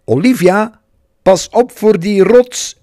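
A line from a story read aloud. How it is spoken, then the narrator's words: Calling out. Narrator (Dutch): riep Alice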